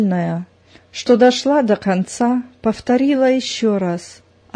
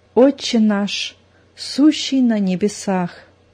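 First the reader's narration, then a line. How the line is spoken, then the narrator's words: Whispered. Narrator (Russian): зашептала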